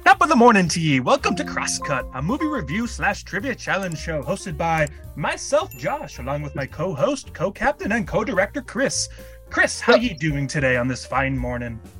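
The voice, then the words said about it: Put-on Irish accent. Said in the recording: “Where's your Irish accent?”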